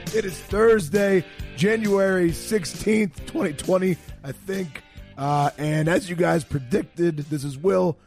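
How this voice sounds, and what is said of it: Hoarse, strained voice. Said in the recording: “I've lost my voice again at an LSU game ... Coach O's punched me in the throat about fifty times”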